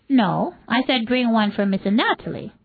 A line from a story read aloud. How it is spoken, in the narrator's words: Mobutu said sharply